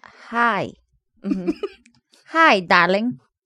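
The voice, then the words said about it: Attempted flat Minnesota accent. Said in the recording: “I do your accent? You're Minnesota? ... Is it flat enough? ... No,”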